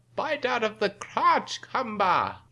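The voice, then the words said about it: Count-like vampire voice impression. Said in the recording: “You sound just like that guy. ... the impersonation he was just doing. ... He sounds like the count from the...”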